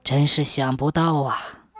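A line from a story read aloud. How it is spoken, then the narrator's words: Relieved murmur. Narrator (Chinese): 吴立人暗松了一口气，喃喃地说道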